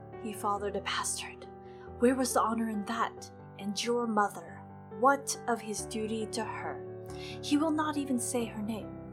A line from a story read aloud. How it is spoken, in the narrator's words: a small sly voice whispered